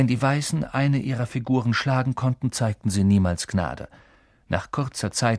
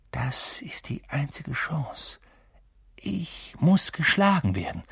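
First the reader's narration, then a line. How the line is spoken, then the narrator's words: Quiet. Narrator (German): sagte Ron leise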